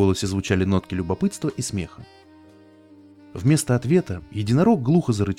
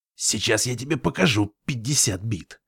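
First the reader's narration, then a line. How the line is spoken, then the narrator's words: Hoarse rasp. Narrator (Russian): прохрипел Фрост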